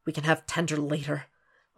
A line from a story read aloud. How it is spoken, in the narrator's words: Will mutters